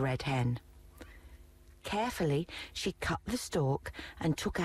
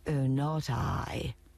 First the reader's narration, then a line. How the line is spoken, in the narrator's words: purred the cat